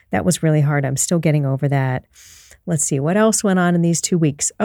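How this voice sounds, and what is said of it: Voice still rough from illness. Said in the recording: “I'm sure that you can still hear it in my voice. I actually lost my voice completely for 2 days.”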